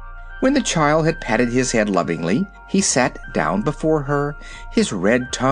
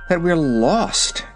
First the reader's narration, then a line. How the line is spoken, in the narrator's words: she said with a sigh